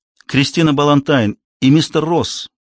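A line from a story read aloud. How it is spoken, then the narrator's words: Excited exclamation. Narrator (Russian): восторженно воскликнула Эмили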